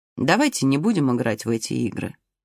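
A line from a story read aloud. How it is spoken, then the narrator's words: Gentle. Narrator (Russian): ласково сказал высокий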